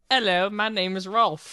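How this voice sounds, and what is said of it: Put-on English accent. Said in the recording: “Do your best voice from This Is England, your impression.”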